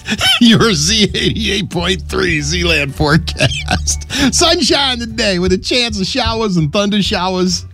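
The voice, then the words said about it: Philadelphia accent. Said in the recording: “is my Philly accent's coming out. ... It flips out sometimes”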